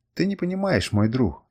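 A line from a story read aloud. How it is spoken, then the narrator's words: Suppressed sob mutter. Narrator (Russian): Сдерживая рыдание, пробормотал я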